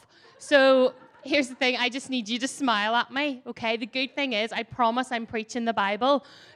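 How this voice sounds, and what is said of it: Strong accent, spoken slowly. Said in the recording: “my accent is a little bit full on. This is me talking slow. And when I get excited, this can go way off.”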